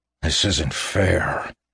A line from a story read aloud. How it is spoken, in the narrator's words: he snarled the words at the mists